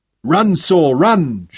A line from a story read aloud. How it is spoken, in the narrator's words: Sean shouted